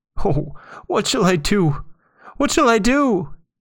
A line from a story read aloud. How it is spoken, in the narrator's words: he sobbed